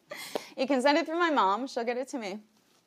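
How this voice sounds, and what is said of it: Emotional, choked-up voice. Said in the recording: “Getting emotional again.”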